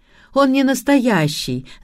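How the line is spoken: Laughing. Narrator (Russian): засмеялась я

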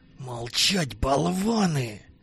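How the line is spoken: Hissed, gray-haired man. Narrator (Russian): прошипел седовласый

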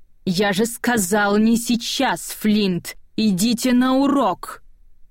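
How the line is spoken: Growling voice. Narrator (Russian): Голос, которым мистер Бадар произносит эти слова, больше похож на рычание

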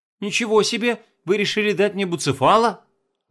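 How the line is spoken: Exclaiming. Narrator (Russian): воскликнула Лоис

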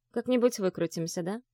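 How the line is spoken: Soft. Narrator (Russian): мягко произнесла

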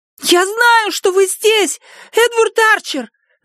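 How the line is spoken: Shouted. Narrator (Russian): закричала она

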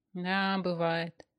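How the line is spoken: Sighing agreement. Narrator (Russian): вздохнув, согласился Станислав

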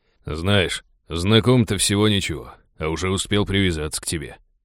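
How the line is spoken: Regretful grumble. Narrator (Russian): проворчал с сожалением в голосе Рак

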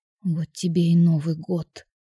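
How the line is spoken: Whispered. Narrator (Russian): шептала я

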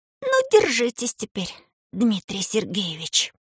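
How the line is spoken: Quiet speech. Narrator (Russian): тихо произнес Рыжиков

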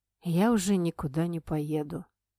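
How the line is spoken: Father, suddenly calm. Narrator (Russian): неожиданно произнес отец совершенно спокойно

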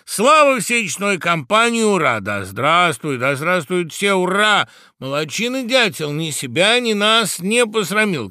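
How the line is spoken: Birds shouting together. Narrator (Russian): кричали птицы

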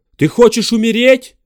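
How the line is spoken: Shouted. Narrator (Russian): крикнул он

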